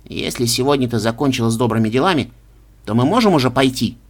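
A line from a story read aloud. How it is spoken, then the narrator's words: Irritated question. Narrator (Russian): раздраженно спросил мышь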